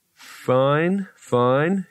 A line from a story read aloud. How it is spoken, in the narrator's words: he said slowly